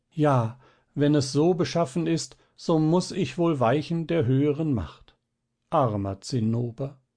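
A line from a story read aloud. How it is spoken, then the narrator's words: Young lady crying out in pain. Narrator (German): Das Fräulein rief dann voll Schmerz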